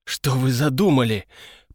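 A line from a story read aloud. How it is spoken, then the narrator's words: Strained hoarse croak. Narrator (Russian): прохрипел я, еще не до конца восстановив контроль над голосовыми связками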